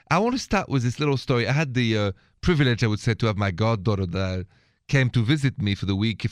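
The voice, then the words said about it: French accent. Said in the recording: “My accent is French.”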